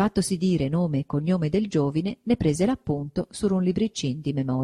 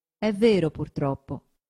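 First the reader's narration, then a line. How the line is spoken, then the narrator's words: Plain. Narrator (Italian): disse il cardinale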